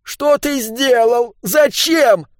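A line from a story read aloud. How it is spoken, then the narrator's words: Ghostly sobbing. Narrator (Russian): зарыдал призрачный Моисей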